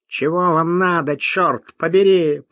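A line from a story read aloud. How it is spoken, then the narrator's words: Nasal, strong regional accent. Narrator (Russian): прогнусавил он сильным ньеврским выговором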